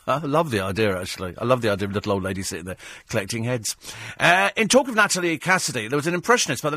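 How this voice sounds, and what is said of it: Usual voice. Nothing is said of it.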